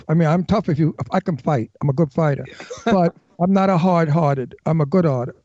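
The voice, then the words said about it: Brooklyn accent. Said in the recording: “my Brooklyn accent”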